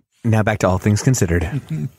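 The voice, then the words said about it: NPR radio announcer voice. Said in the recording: “This is my NPR voice.”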